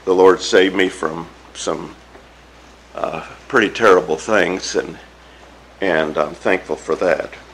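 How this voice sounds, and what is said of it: Weak, poor-sounding voice. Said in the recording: “I'm not quite the same. ... I don't know what my voice sounds like to you, but it sounds terrible to me, so I hope that I hope you can hear me”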